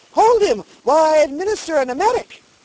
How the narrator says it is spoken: the surgeon cried eagerly

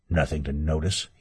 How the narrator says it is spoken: he muttered

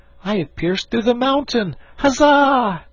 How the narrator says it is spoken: the shout

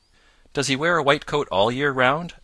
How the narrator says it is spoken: asked Peter eagerly

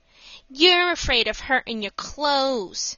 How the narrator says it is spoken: said Mickey with a sneer

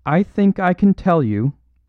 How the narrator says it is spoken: cried Lady Margaret, in that clear, quivering voice with which a courageous woman speaks publicly

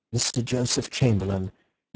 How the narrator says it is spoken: From the doorway there came a murmur of

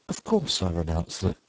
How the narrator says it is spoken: recovering himself said kindly

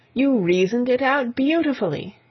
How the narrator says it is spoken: I exclaimed, in unfeigned admiration

